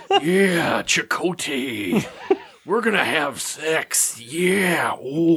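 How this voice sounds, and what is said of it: Imitates a pro wrestler's voice. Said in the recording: “that Randy Savage impression”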